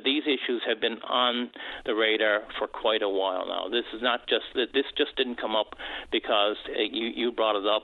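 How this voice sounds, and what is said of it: Frustrated tone of voice. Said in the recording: “you can probably hear the frustration in my voice”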